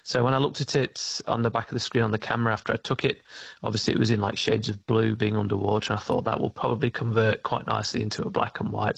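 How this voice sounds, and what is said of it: British accent. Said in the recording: “I think I can hear a British accent there”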